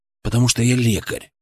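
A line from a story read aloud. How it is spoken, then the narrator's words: Calm reply. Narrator (Russian): ответил я спокойно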